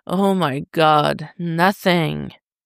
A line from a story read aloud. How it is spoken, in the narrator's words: Tim groans